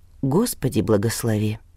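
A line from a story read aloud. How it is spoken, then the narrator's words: Silent mouthed whisper. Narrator (Russian): одними губами прошептал он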